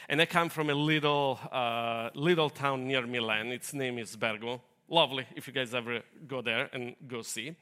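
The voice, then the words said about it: Italian accent. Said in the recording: “I know you couldn't tell from my accent because it's so perfect ... I'm not American ... I'm Italian”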